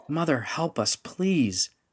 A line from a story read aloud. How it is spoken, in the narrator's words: Rendra begged, her voice rising in pitch and volume